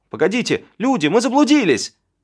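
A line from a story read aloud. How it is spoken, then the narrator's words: Yelling at full strength. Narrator (Russian): Заорал изо всех сил Мур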